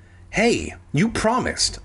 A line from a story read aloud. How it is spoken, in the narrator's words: I exclaimed